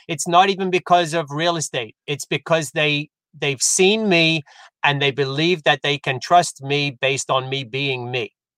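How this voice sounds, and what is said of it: British English accent. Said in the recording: “your British accent... The accent helps... oh my God, I love your accent.”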